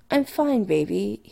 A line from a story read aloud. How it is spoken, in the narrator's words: he murmurs